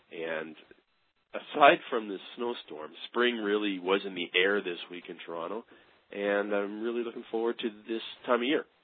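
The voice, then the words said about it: Voice sounds like a cold. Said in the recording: “you may be able to hear that I have a bit of a cold,”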